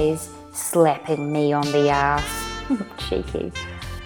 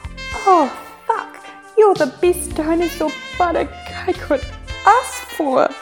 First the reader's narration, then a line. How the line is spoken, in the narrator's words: I whimper